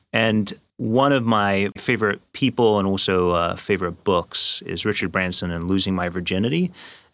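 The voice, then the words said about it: English accent. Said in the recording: “I grew up in England, therefore the strange accent.”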